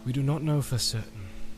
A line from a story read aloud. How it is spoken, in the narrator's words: answered Elrond sadly